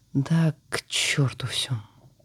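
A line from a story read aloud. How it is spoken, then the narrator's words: Mutter. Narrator (Russian): Пробормотала она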